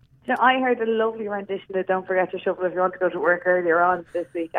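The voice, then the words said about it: Irish accent. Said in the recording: “We love the Irish accents”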